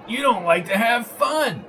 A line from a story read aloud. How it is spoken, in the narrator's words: bellowed Arnie in a loud voice